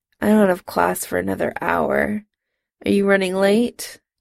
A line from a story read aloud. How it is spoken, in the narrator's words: Jim mumbled